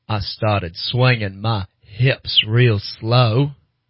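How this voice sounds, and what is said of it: Forrest Gump character impression. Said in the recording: “your Forrest Gump impression”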